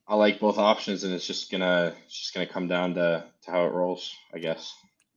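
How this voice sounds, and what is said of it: Slight Canadian accent twang. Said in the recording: “you got a bit of a Q twang to you, my friend. There's a bit of a Canadian accent going on there for sure.”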